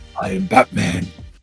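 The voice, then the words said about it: Batman voice impression. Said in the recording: “do the Batman voice?”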